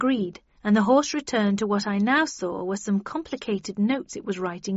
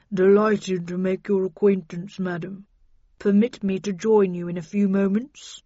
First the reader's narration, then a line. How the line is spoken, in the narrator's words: the horse brayed and replied in a deep voice